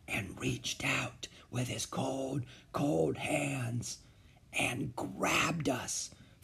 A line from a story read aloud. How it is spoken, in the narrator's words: finished Beezus in her softest whisper